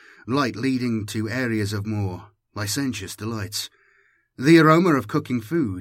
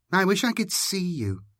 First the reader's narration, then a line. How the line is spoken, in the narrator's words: Shivania said wistfully